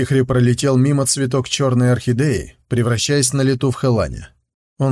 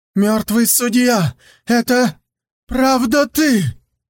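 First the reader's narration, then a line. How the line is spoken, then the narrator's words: Astonished shout. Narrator (Russian): пораженно крикнула Ким Су Йон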